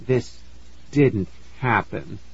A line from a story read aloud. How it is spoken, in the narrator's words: I murmured